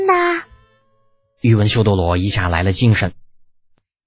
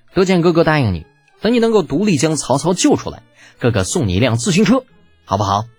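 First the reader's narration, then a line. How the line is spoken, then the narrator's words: Gentle smile. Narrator (Chinese): 李浩微微一笑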